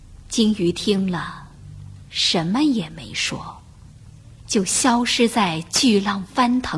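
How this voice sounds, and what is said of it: Usual voice. Nothing is said of it.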